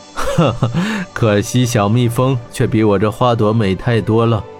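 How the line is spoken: Laughing. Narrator (Chinese): 霍真也笑道

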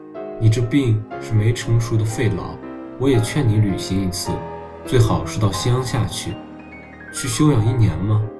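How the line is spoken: Sighing. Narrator (Chinese): 他叹了口气

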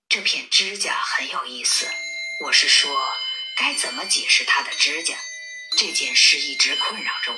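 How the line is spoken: Murmuring. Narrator (Chinese): 马普尔小姐喃喃道

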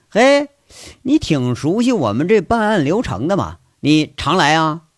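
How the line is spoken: Laughing question. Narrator (Chinese): 这警察 马上就笑了 就问

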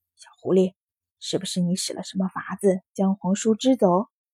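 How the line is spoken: Low voice. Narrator (Chinese): 低声道

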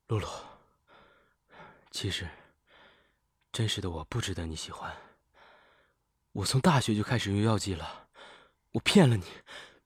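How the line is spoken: Sighing. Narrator (Chinese): 陈烨叹了一口气

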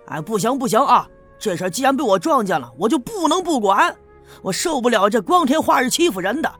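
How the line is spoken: Loud blustering. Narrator (Chinese): 张强大呼小叫的说

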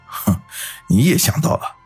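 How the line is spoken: Cold sneer. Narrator (Chinese): 大强嘴角勾起一抹冷笑来

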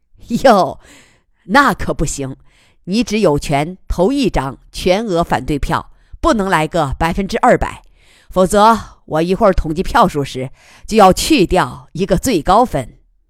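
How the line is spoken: Witty, joking. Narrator (Chinese): 吉仁瑞机敏地用玩笑化解

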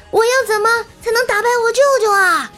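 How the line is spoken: Anguished loud cry. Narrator (Chinese): 沉香难受的捶胸顿足的高喊

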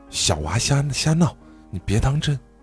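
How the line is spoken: Embarrassed, low voice. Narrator (Chinese): 胖妹恨不得把头低进土里，怕曹师冲动，低声道

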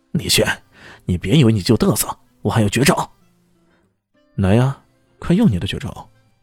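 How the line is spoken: Angry, frustrated. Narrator (Chinese): 嚣张羊狂攻不下，咬了咬牙，终于怒道

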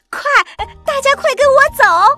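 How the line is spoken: Shouting. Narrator (Chinese): 绿跑跑喊着

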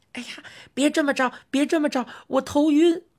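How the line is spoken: Squeaking like a mouse. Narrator (Chinese): 特特老板像耗子一样吱吱地叫着

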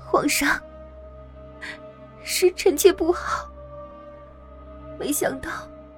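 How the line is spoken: Weak tearful crying. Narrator (Chinese): 他弱弱的 满眼含泪的哭道

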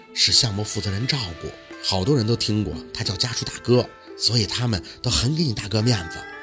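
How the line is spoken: Whispering in ear. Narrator (Chinese): 方梅梅在宝四耳边轻声地说

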